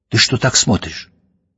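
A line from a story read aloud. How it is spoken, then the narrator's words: Abrupt whispered question. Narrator (Russian): вдруг обрывает себя и спрашивает шепотом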